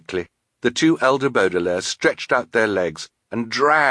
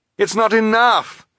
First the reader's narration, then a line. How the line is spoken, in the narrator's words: Klaus cried